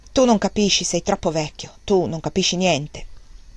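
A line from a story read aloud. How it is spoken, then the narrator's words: Young man's harsh murmur. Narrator (Italian): il giovane mormorò solo in tono aspro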